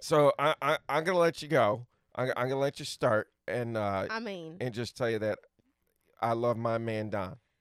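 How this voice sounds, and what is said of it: Put-on Southern drawl. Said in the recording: “now you got me talking with a southern drawl ... Alabama ... talking in a southern accent”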